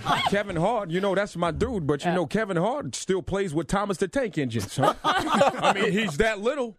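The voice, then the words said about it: Brooklyn or Staten Island accent. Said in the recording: “that Brooklyn or Staten Island or whatever ... accent”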